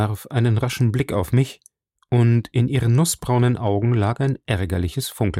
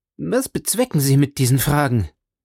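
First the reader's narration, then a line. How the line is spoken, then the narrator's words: Sharp call. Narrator (German): rief sie dann scharf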